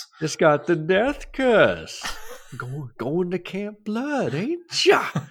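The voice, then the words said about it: Imitates a horror film character. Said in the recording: “my Crazy Ralph impression”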